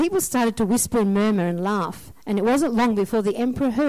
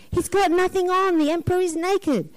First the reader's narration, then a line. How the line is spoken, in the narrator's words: Suddenly a voice called out from the crowd, shouting